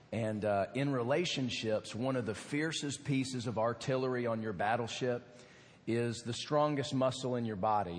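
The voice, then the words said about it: Hoarse, strained voice. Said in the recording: “You can understand now where my voice went. ... I was screaming my lungs out”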